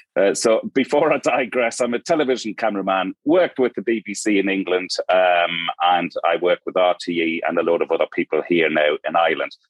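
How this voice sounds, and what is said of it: Mixed Geordie and Irish accent. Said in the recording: “Geordie, born and bred ... I've got a weird mashup of an accent going on. Lived in Ireland for the last 18 years.”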